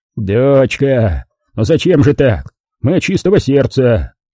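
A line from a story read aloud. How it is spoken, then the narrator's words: Reproachful deep bass. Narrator (Russian): Укоризненно пробасил полковник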